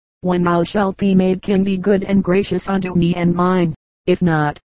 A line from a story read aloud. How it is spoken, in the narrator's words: said Arthur